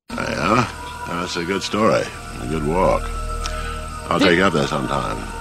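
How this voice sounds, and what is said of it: Low voice, Maine accent, words blending. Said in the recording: “This is what apparently the main accent sounds like ... does the low voice come with it? ... It just sounds like he's bleeding words again. It sounds like you got some maple syrup and just letting it dribble out of your mouth ... Just kind of bleeding together.”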